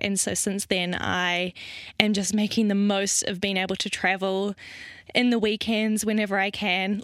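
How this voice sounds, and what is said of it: New Zealand accent. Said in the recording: “a little place down under called New Zealand... which is where my crazy accent is from... what is that wacko accent that she has?... It's not Australia. It's New Zealand.”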